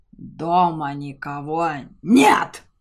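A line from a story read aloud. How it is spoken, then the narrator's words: Dragon's bark. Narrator (Russian): рявкнул дракон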